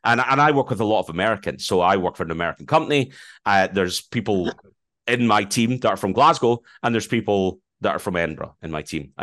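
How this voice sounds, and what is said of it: Scottish accent. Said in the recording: “It's clearly a Scottish accent I have ... I'm not very quickly spoken”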